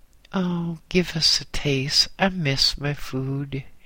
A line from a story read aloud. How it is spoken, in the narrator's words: he said wistfully